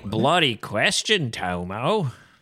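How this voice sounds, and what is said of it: Weak put-on Australian accent. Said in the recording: “my Australian accent's not good”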